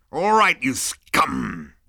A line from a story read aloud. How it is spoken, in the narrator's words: he growled